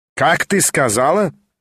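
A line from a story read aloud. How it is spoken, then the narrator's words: Shrill, suddenly subdued. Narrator (Russian): приготовилась была опять взвизгнуть мамаша, но вдруг осела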